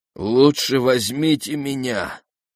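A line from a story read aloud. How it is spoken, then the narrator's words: Moaning. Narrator (Russian): простонал аккомпаниатор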